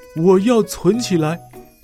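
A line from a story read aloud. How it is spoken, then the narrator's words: Breathless. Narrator (Chinese): 跑到狐狸博士的幸福储蓄店，气喘吁吁地说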